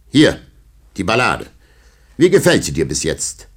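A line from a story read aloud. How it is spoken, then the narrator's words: Loud rhythmic reading. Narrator (German): Mit der Hand skandierend las er sie Tabary laut vor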